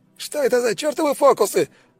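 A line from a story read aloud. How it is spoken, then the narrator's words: Incredulous yell. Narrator (Russian): заорал Штрудель, не веря своим глазам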